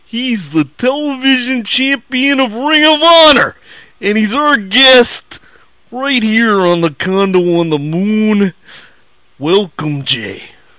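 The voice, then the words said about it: Randy Savage impression. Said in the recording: “my Randy Savage imitation ... it was pretty good ... the Randy Savage voice”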